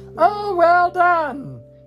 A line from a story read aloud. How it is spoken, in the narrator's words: cried Professor Flitwick